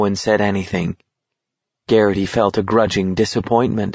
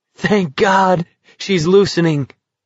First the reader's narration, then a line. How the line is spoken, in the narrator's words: Curly exclaimed